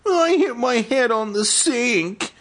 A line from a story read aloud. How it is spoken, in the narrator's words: he wailed